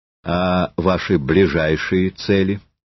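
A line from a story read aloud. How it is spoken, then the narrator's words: Calm question. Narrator (Russian): спокойно спросил Ромеев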